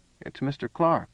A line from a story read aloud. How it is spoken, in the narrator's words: said quietly